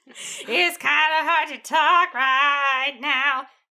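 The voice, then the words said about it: Imitates a rock singer's voice. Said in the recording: “This is my Hinder impression.”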